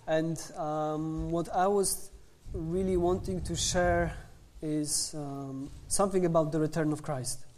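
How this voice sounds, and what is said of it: English with a Polish accent. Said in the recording (Polish): “With my best Polish accent ... z jego fantastycznym polskim akcentem”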